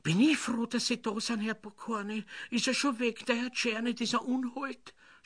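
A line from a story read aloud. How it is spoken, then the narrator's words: Theatrical sobbing. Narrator (German): schluchzte sie pathetisch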